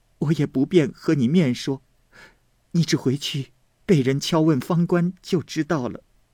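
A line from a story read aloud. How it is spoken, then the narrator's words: Crying. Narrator (Chinese): 又哭道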